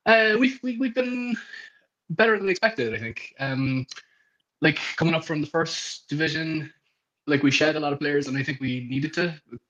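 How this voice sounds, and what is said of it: Cork Irish accent. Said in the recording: “You're obviously a Cork man going by the accent.”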